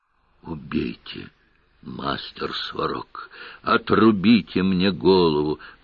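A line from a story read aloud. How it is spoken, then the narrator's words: Hoarse wheeze. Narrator (Russian): прохрипел мэтр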